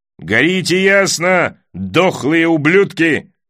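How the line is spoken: Exclamation. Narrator (Russian): восклицал Дайвин

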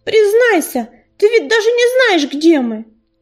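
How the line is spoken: Sharp bird cry. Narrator (Russian): резко крикнула ласточка

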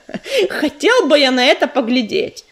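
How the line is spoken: Laughing. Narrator (Russian): засмеялся Грач

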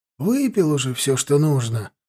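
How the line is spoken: Sigh. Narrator (Russian): вздохнул Аристарх

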